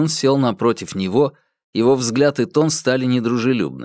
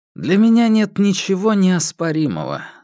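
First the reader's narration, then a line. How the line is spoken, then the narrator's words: Calm. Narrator (Russian): спокойно сказал Хуянь Юнь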